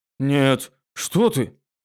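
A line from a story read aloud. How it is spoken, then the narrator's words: Frightened reassurance. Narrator (Russian): испуганно заверил он Фация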